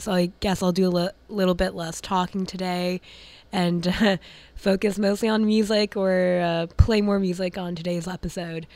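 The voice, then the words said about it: Raspy voice. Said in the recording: “my voice is a bit raspy”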